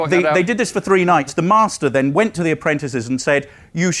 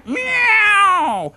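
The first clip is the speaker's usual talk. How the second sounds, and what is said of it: Imitates a cat's meow. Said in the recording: “howl like a cat ... A very good cat impression.”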